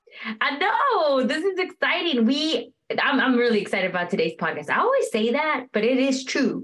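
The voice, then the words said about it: Texas twang accent. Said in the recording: “accent ... that twang ... That's Texas. That's that Texas twang.”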